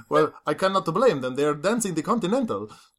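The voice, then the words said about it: Put-on accent. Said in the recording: “I should not have done that accent.”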